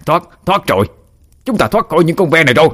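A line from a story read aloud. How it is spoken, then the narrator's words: Joyful yell. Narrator (Vietnamese): Người đàn ông gầy guộc kia vui mừng gào lớn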